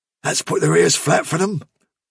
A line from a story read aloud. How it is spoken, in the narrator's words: whispered Bigwig